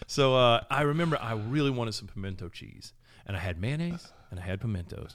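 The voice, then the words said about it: Regional accent becoming stronger. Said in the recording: “My accent comes out when I start talking about this.”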